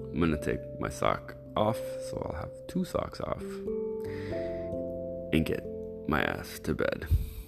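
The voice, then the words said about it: Sexy post-nap voice. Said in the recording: “sexy voice right now post nap voice”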